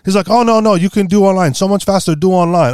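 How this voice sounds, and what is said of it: Put-on Asian accent. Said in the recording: “I think he's Asian. That was my best ... My ornamental accent”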